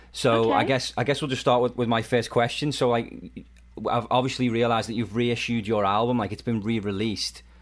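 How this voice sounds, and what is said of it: Liverpool English accent. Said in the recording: “I love y'all's accents ... We're obviously from the UK ... She's in Liverpool, which is where we're both from.”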